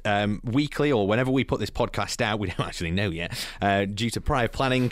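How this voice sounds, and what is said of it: Strong radio presenter voice. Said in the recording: “will you lose the radio voice? ... Why does the voice come in so strong?”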